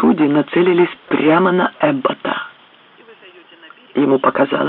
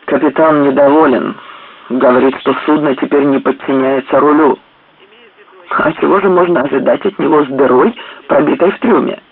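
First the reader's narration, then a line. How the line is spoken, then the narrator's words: Plain. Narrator (Russian): сказал Паркер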